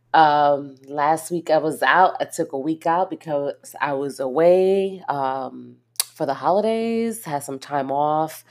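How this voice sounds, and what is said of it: Congested voice from a cold. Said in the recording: “I'm actually been fighting a cold, so my voice is going to go in and out”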